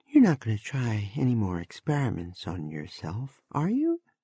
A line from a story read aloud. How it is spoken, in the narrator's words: Sarah asked wistfully